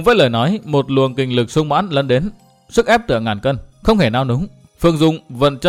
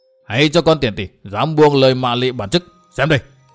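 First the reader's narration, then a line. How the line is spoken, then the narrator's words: Angry roar, old demon. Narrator (Vietnamese): Lão ma đầu vừa nghe xong câu miệt thị của nàng đã gầm lên giận dữ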